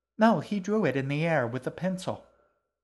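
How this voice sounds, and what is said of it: Babyish character voice. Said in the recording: “He took on a babyish voice, obviously meant to be her. ... Baby voice.”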